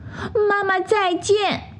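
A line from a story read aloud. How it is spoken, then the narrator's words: Desperate shouting from above. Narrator (Chinese): 他们在空中拼命地喊着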